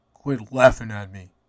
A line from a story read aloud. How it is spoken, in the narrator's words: he muttered